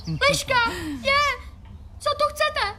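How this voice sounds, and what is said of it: Shouting loudly. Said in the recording (Czech): “Nekřič tolik, ne tak nahlas.”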